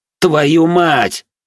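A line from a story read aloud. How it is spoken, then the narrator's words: Shout. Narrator (Russian): крикнул я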